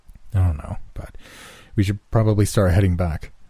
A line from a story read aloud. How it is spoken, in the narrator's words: I mumbled, still partially in a trance